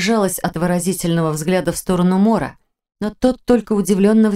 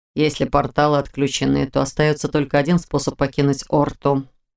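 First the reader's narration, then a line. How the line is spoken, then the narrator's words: Grim remark. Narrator (Russian): мрачно заметил Мор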